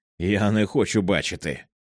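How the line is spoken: Attempted firm confident tone. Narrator (Ukrainian): Він намагався сказати це твердим і впевненим тоном

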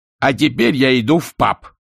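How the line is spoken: Barked. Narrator (Russian): рявкнул Альберт

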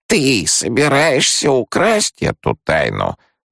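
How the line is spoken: Hoarse wheeze. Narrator (Russian): прохрипела Махаем

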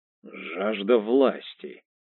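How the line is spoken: Hoarse. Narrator (Russian): хрипло сказал Лео

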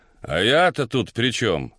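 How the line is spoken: Rude reply. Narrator (Russian): грубо ответила женщина

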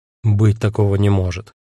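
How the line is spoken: Gloomy. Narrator (Russian): мрачно сказал я

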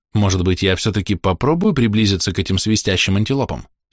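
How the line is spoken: Plain question. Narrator (Russian): спросил Дик Сэнд

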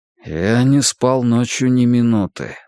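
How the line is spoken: Strained forced words. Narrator (Russian): выдавил Рекс

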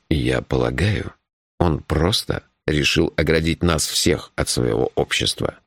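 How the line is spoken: Gentle. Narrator (Russian): мягко сказал Джуфин

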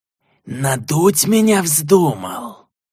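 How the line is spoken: Hissed angrily. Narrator (Russian): прошипел маргудец орку

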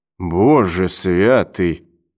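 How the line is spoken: Muttering. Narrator (Russian): пробормотал Брэдли

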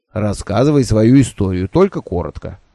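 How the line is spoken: Grumbling. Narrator (Russian): проворчал другой Кырба Ате

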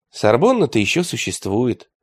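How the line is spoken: Sighing. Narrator (Russian): вздохнул атаман

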